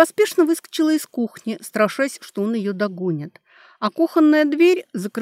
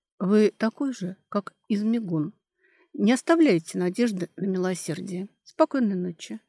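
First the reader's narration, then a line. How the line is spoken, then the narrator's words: Lifeless voice. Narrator (Russian): безжизненным голосом, который сама прочувствовала, сказала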